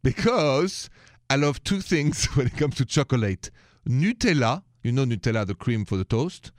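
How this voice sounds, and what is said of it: French accent, excited tone. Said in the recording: “the accent is French. And if I sound a little excited tonight, a little high”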